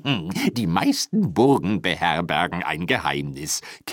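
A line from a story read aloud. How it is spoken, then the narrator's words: Giggled. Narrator (German): kicherte Rusty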